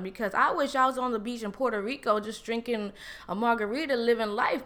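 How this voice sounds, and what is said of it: New York ghetto accent. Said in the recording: “my New York ghetto accent, I pronunciate different”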